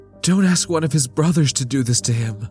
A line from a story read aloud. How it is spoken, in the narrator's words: Lita pleaded